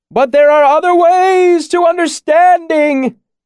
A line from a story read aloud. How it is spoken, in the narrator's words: he shouted, laughing like a child